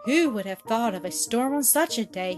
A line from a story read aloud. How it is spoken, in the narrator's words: he exclaimed